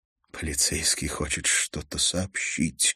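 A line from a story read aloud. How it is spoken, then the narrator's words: Quiet. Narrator (Russian): тихо сказал Бергер Хольмен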